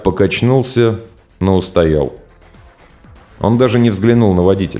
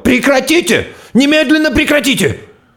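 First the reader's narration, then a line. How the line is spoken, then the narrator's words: Doctor shouting. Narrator (Russian): доктор сразу же закричал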